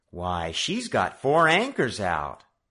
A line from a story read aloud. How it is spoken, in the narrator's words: Joe exclaimed